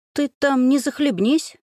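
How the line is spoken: Cheerful. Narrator (Russian): весело заметила я

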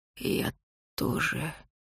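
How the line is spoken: Creaky rasp. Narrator (Russian): проскрипел проклятый

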